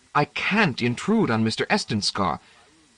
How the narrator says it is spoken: said earnestly

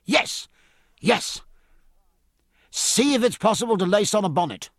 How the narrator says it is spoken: cried

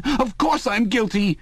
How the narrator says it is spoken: cried Parsons

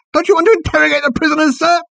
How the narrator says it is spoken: he squealed

